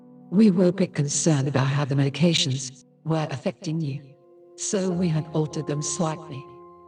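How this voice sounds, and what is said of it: Woman speaking with bizarre accent. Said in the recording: “She said with a bizarre accent.”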